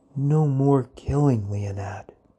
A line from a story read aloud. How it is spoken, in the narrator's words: said softly